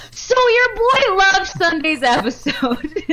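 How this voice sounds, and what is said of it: Impression of Paul. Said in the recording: “I'm trying to read it like Paul... How's my impression?”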